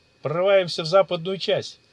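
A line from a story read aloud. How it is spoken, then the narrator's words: Shouted on the move. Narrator (Russian): на ходу крикнул маг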